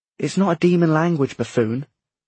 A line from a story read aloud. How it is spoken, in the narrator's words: Matthew snapped